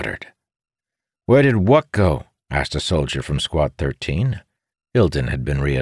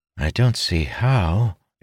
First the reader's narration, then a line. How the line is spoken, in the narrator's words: Ildin muttered